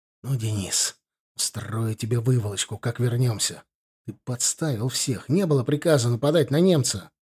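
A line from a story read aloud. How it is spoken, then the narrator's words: Impulsive angry hiss. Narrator (Russian): Порывистый Володя не удержался и прошипел младшему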